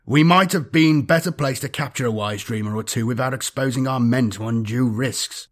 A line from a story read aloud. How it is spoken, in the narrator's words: Vorch said in a vexed tone